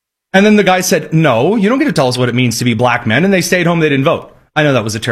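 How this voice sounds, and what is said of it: Usual voice. Nothing is said of it.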